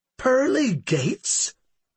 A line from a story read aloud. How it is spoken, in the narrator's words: the second person exclaimed